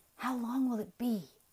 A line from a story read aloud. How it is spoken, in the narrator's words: Jody demanded, breathlessly